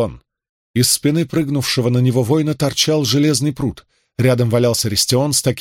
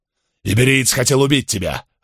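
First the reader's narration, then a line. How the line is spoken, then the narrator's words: Growl. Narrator (Russian): рыкнул второй скиф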